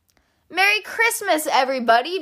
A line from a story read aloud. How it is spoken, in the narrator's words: Badger cried